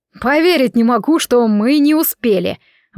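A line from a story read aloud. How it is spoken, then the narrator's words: Loud public shout. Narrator (Russian): во всеуслышание прокричал Себастьян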